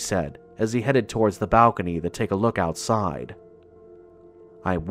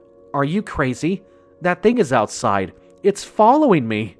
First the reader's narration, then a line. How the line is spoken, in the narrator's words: nearly yelled, panic setting in